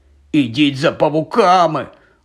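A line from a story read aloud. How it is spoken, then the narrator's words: Barely audible rasp. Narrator (Ukrainian): ледь чутно хрипів він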